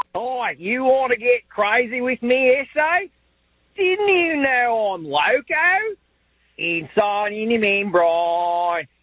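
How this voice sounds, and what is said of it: Put-on Australian accent. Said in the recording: “give us their best impression with their Australian accent ... Pretty good ... Not as distinguished, maybe, as Giles Dingy might, but still pretty good”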